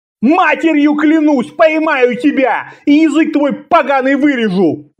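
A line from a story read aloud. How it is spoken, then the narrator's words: Furious spluttering yell. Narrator (Russian): Заорал Аббас в бессильной злобе, безобразно брызгая слюной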